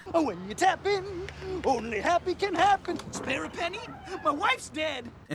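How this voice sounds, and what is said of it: Chipper, cheery Muppet-like character voice. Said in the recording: “In a really chipper sort of Muppet accent ... Muppet accent, yeah. That's the right word for that. In a really cheery Muppet voice.”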